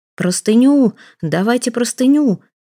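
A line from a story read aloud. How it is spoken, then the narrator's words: Shouting. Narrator (Russian): кричал Самоплясов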